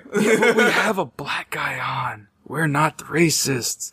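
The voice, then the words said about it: Whispering. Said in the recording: “I'm whispering. ... You're whispering into the mic”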